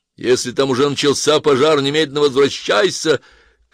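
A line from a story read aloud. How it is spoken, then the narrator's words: Shout after someone. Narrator (Russian): крикнул вдогонку Ланселот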